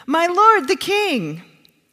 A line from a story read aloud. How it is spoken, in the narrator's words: David shouted after him